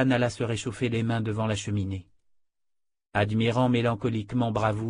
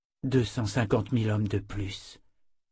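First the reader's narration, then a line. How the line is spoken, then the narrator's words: Dejected whisper. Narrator (French): souffla Callan accablé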